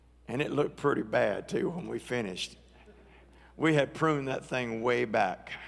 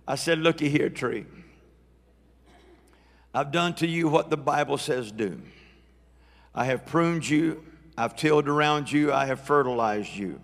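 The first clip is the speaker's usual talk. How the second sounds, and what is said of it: Put-on Southern US accent. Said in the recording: “I spoke in my best southern accent”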